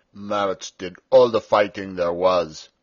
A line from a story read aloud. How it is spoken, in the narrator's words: said Peter sulkily